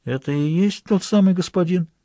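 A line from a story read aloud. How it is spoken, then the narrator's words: Barely audible whispered question. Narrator (Russian): извозчик спросил Граляра едва слышным шепотом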